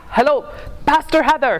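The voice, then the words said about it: Thick Ghanaian accent. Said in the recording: “this very thick Ghanaian accent”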